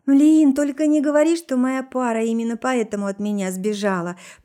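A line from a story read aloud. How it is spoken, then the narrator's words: Anguished groan. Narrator (Russian): простонала со страданием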